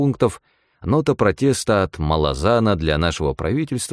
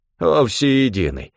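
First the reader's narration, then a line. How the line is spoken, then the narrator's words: Grumbling. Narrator (Russian): проворчал Стефан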